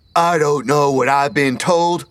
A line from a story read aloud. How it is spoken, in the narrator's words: Petey shouted